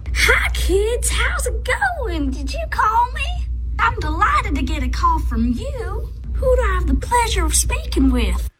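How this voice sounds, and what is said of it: Put-on Southern accent. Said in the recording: “the southern accent all of a sudden”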